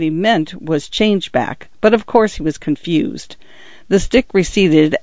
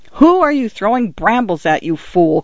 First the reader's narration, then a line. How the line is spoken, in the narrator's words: cried a voice